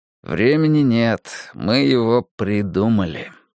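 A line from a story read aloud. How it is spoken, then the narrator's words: Man muttering to himself. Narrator (Russian): пробурчал про себя мужчина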